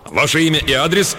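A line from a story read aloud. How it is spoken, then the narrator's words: Barked, brisk officer's voice. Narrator (Russian): рявкнул деловой энергичный голос дежурного офицера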